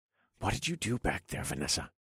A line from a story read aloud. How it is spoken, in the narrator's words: I whispered